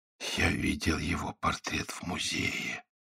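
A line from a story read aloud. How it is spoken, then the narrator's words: Whisper. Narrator (Russian): прошептал Генрих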